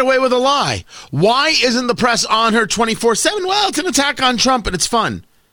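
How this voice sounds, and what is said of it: Usual voice. Nothing is said of it.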